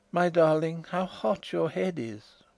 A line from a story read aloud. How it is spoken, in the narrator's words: I heard her murmur